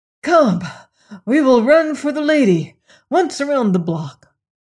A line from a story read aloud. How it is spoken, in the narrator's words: Bob was panting, but he managed to say